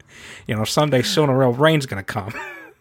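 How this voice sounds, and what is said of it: Good Peter Griffin impression. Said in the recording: “me doing the taxi driver monologue as Peter Griffin ... Oh, wow. You're actually good at it.”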